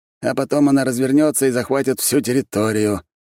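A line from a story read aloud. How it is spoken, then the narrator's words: Gloomy. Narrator (Russian): мрачно добавил Марк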